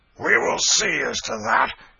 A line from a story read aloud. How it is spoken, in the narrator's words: exclaimed John Canty